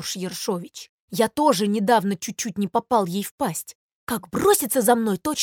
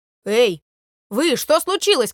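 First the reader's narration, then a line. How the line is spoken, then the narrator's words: Shouted. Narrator (Russian): крикнул трубочист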